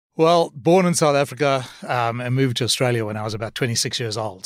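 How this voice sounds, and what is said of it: Distinctive non-local English accent. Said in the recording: “Interesting accent.”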